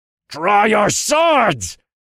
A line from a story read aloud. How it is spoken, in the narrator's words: he cried out